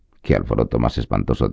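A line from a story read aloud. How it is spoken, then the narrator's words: Plain. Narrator (Spanish): dijo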